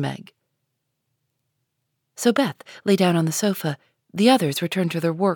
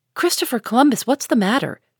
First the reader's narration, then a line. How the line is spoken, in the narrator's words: cried Jo